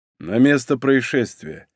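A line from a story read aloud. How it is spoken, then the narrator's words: Tired offhand remark. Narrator (Russian): устало обронил Игорь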